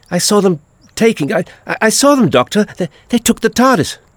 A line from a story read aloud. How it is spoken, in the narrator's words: it was all she could do to gasp